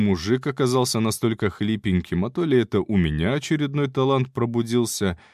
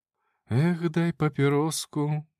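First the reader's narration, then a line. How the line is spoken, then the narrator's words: Humming under breath. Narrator (Russian): мурлыкал я себе под нос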